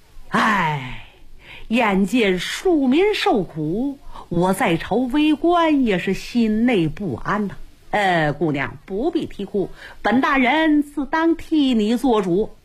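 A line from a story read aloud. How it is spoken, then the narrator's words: Sighing with emotion. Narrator (Chinese): 王大人也是感叹不及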